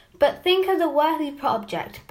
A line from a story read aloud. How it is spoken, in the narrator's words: pleaded Anne